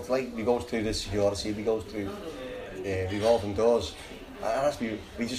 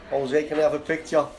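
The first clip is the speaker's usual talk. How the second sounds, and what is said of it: Put-on Salford accent. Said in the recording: “I went in my best Salford accent.”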